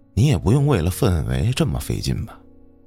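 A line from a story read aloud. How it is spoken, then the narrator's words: Sighing. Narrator (Chinese): 老冯叹着气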